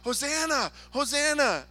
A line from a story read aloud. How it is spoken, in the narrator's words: Unable to control your excitement any longer shout